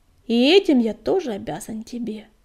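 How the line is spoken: Fervent exclamation, kitten. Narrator (Russian): горячо воскликнул котик

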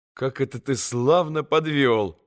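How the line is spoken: Sudden laughing. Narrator (Russian): засмеялся вдруг Алеша

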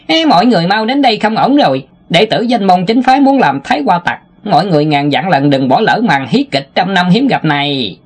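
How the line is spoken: Harsh cold laugh, shouting. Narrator (Vietnamese): Tiểu Ngô gằn giọng cười lạnh vài tiếng, hét lớn

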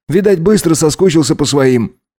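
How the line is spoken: Wry snort. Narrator (Russian): хмыкнул врач

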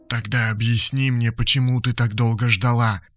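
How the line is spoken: Whispered. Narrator (Russian): прошептал Толик

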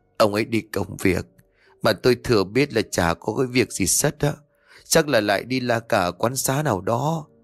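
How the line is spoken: Weary sigh. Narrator (Vietnamese): bà Huệ chỉ biết thở dài ngao ngán

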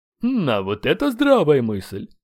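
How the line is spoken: Snorting. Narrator (Russian): хмыкнул Рэнсен

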